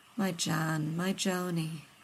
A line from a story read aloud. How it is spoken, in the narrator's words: Rodney murmured